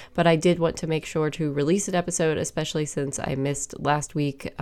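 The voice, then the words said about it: Congested voice from a cold. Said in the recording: “as you can probably tell, I have a cold.”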